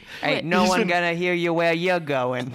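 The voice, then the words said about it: Bad New York gangster accent. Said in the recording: “Is that a New York accent? Is that how gangsters talk? ... Oh, God, it's real bad. ... Bad accents”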